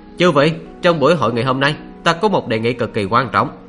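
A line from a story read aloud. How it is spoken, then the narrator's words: Loud announcement. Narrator (Vietnamese): Mộ Dung Thiên cất cao giọng nói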